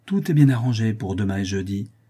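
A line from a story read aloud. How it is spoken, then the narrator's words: Crisp, decisive. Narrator (French): dit-elle d'un ton net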